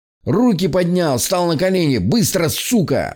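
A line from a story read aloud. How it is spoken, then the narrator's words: Overlapping shouting voices. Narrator (Russian): заорали они наперебой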